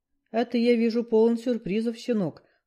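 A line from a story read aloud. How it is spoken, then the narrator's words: Cold smirk. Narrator (Russian): холодно усмехнулся Бакор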